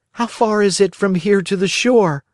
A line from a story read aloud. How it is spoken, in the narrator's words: asked Pinocchio anxiously